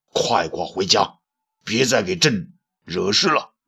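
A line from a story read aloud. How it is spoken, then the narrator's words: Angry. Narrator (Chinese): 武帝怒道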